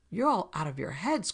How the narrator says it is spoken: cried Stryker

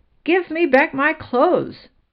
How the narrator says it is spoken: cried the rabbit

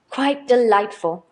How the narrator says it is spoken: cried Mrs

